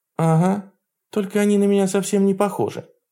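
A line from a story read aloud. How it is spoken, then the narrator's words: Sad speech. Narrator (Russian): грустно сказала она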